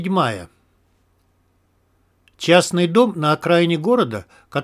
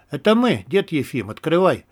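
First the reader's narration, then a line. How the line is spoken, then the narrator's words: Calm speech. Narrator (Russian): спокойно сказал Виктор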